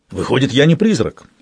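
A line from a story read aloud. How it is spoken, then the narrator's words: Exclaiming. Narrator (Russian): воскликнул он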